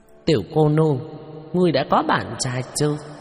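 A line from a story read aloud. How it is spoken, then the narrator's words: Group laughing loudly. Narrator (Vietnamese): Bọn Hứa Đại Tráng cười lớn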